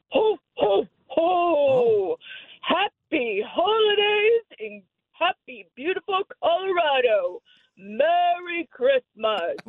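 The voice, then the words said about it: Santa Claus impression. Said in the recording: “give us your Santa Claus impression.”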